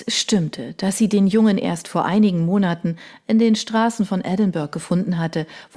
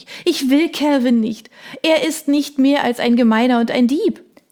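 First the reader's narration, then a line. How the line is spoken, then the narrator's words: Sobbing king. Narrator (German): schluchzte der König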